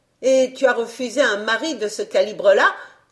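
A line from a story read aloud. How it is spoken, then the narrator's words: Exclaiming. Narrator (French): s'écria Pomme d'Api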